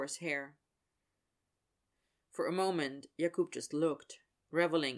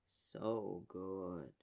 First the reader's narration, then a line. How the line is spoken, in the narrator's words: Yager murmured, voice almost a hum